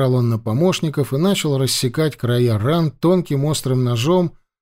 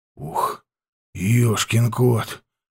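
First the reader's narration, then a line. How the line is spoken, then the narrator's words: Muttered. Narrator (Russian): пробормотал Карпыч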